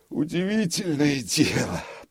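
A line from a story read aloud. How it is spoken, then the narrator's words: Grumbling. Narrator (Russian): проворчал он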